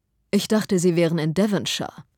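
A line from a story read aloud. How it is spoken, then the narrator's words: Plain. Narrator (German): sagte er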